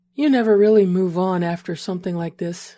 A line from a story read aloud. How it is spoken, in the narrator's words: she said